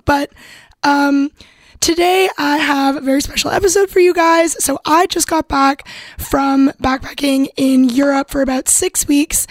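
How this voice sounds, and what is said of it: Hoarse, weakened voice. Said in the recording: “I do seem to have lost my voice... Most of the time, it's going to sound like this.”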